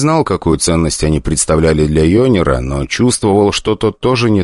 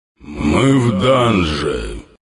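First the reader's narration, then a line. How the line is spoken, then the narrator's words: Overly grumpy demon. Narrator (Russian): ответил на это демон излишне ворчливым голосом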